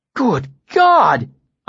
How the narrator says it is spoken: exclaimed, covering my mouth with one hand

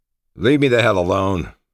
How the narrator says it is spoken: growled

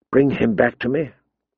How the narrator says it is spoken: she whispered to Miri Mazdour

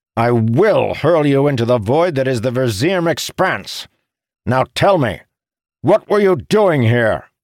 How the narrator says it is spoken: Arantil shouted

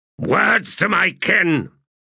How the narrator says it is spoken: he barked

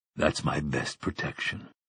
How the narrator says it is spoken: Roland's mind muttered

